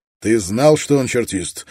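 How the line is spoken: Sharp. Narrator (Russian): резко проговорил Струан

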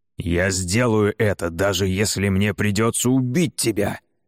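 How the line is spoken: Growled. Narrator (Russian): прорычал он

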